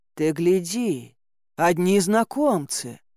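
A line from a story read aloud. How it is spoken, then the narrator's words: Grumbling. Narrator (Russian): проворчал Илья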